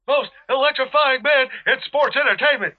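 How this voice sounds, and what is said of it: Poor impression of The Rock. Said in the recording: “Terrible Rock impression.”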